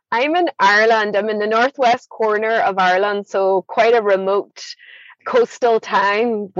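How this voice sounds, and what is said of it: Irish accent. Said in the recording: “I love your accent. That is so interesting.”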